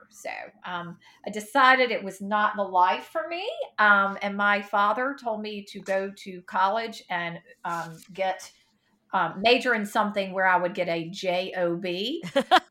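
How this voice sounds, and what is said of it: Mississippi accent. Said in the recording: “where is your accent from? ... I grew up in Mississippi in a small town”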